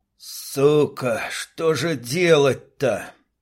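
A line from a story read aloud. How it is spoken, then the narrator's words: Groan into silence. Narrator (Russian): Простонал он в пустоту и тишину убежища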